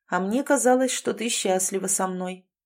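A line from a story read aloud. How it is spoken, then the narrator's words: Gloomy remark. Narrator (Russian): мрачно оценил высказывание своей жены Джек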